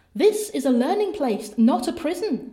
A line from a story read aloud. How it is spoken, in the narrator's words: said Perdita, knitting away merrily